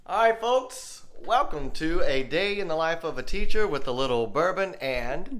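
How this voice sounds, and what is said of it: Southern US accent. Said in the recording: “We are both fourth grade teachers here in the Southeast. If you couldn't tell by my voice.”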